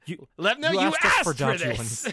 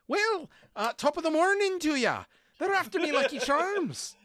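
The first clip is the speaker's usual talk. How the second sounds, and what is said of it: Exaggerated Irish accent. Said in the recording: “A hard Irish accent.”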